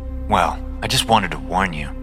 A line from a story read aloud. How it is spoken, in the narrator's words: I say in a sour tone